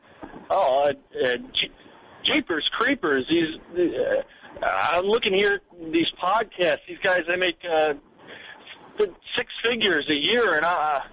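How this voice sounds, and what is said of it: Impression of the show host. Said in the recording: “do an impression of you?”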